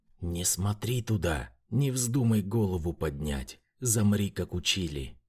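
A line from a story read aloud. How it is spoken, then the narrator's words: Angry hiss. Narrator (Russian): мамка зло прошипела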